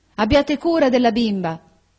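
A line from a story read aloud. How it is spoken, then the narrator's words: Shouted. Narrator (Italian): gridò ella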